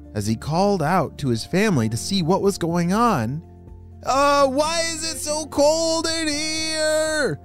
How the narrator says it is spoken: shouted Lincoln

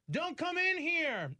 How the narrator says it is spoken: you can shout

